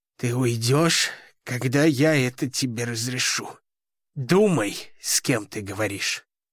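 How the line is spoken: Growled. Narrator (Russian): прорычал он

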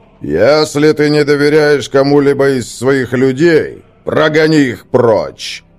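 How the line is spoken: Booming voice. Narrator (Russian): прогремел Гримнар

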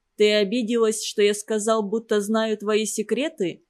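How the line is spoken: Plain. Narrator (Russian): спросил Батыр

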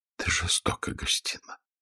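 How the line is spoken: Whisper. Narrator (Russian): прошептала она

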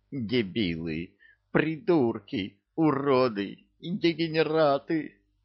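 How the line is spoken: Rhythmic moaning. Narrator (Russian): В такт рывкам стонал трус

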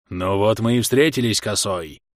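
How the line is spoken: Growled. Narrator (Russian): прорычал волк

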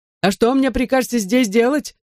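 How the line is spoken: Wailing yell. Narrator (Russian): завопил мистер Молтри

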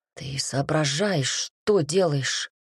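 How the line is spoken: Hoarse question. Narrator (Russian): хрипло спросила Берлинг

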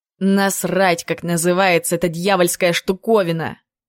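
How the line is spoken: Rough. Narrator (Russian): Грубо отозвался Клим

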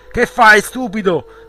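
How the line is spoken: Yelled. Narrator (Italian): urlò

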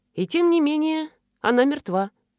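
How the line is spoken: Soft. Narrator (Russian): мягко сказал Зимин

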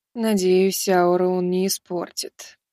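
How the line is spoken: Sighing. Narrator (Russian): вздохнула она

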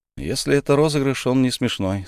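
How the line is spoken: Calm remark. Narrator (Russian): спокойно заметил Колун

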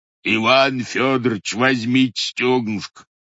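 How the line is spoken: Roaring waiter. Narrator (Russian): проревел официант

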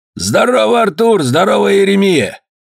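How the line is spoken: Shout. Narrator (Russian): Круглобородый закричал

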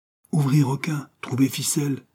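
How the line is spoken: Pleading. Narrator (French): suppliait-il

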